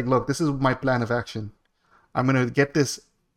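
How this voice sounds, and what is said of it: Put-on Indian accent. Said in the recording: “why'd you say that with an accent? ... It was an Indian guy who I called. ... He had that accent. I'm mimicking him. He had the 100% accent.”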